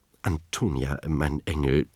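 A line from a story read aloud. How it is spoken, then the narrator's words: Plain. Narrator (German): sagte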